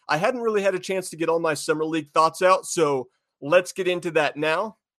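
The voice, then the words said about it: Stuffy, congested voice. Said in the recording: “as I am recovering from COVID... my voice sounds a little stuffy”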